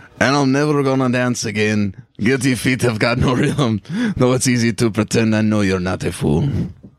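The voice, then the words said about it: Singing in Anton character voice. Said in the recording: “gotta pretend to be Anton ... That's a better character voice than I do in the actual show.”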